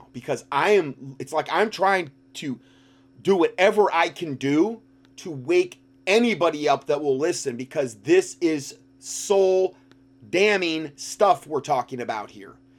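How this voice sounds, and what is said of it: Screaming, loud impassioned preaching. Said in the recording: “I'm screaming so much now”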